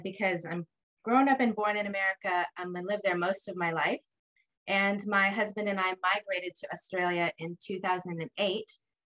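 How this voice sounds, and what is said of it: American accent. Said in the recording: “you clearly are American ... I'm a bit of a confusing accent”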